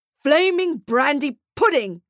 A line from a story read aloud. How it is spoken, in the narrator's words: he shouts